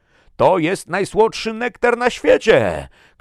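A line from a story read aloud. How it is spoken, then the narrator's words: Shouted. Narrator (Polish): krzyknął Bjorn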